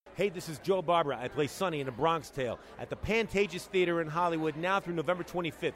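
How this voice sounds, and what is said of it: East Coast American accent. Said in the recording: “I love his accent. It makes me feel like I'm on the East Coast.”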